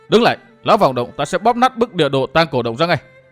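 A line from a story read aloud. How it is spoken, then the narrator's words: Loud shout. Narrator (Vietnamese): Thạch Kiếm Cửu hét lớn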